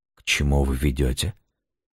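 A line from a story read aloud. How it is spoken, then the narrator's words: Hoarse trembling voice. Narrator (Russian): Хриплый голос дрогнул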